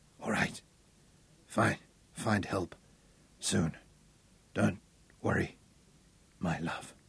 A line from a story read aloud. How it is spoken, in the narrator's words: whispered